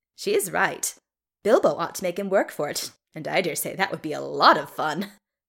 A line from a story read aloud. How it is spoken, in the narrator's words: cackled Rowan